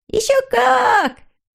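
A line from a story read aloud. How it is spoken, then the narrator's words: Whole family shouting together. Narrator (Russian): закричала вся семья в один голос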